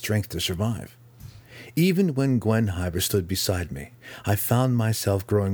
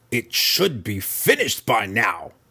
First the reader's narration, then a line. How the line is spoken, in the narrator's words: she grumbled